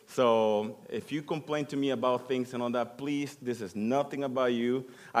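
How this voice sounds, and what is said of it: Speaks with a noticeable accent. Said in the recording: “my accent and all that ... you'll get used to my accent”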